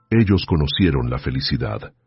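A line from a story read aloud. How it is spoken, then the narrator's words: Quiet voice. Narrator (Spanish): dijo él en voz baja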